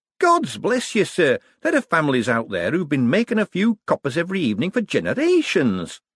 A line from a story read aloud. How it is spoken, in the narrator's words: said Shady happily